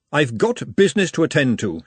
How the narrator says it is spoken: she said sternly

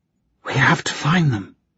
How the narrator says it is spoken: Lucy whispered

